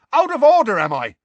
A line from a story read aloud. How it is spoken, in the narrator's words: shouted Seamus, who, in contrast with Ron, was going pale